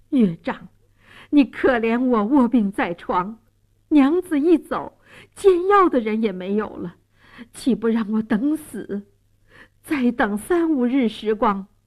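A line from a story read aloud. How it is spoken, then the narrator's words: Desperate pleading. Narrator (Chinese): 蒋世龙苦苦哀求说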